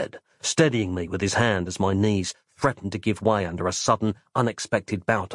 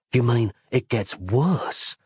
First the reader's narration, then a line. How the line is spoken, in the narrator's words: I asked hoarsely